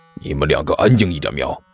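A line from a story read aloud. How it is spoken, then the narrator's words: Hushed scolding. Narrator (Chinese): 狐狸猫压低声音骂了一句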